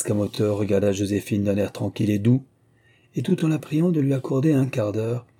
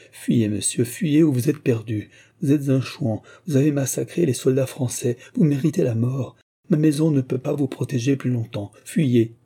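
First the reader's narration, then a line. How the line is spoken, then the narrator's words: Exclaimed. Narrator (French): s'écria Joséphine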